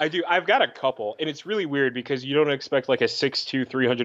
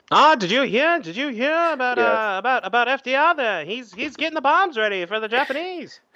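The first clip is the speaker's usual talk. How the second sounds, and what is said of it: Neutral old-time newsreel announcer voice. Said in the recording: “That was an amazing neutral accent. ... To basically do a spot-on newsy impersonation.”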